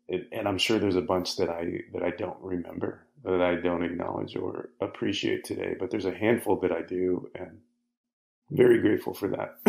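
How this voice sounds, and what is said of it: Choked-up, tearful voice. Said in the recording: “getting choked up. Something in my voice. ... why are you crying?”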